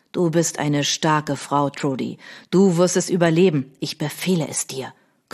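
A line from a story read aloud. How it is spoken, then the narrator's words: Soft growl, no harshness. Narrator (German): knurrte, aber von seiner üblichen Härte war nichts zu spüren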